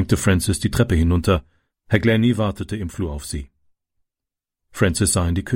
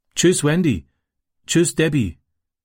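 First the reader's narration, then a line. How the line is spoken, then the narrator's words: Called out. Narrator (German): rief er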